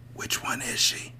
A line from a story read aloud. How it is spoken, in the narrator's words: whispered